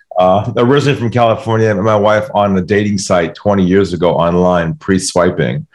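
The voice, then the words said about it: American accent. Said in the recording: “the American accent throws people off”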